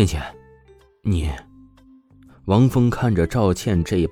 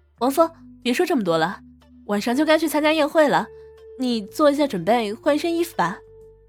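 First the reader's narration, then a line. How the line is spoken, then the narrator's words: Smiling, uneasy. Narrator (Chinese): 赵倩明显神情不对劲，只是露出一抹微笑的说道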